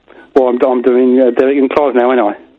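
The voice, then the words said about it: Put-on English accent. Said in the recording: “Why are you trying to do an English accent? ... does this sound any good as an English accent to your attuned ear, or is it rubbish?”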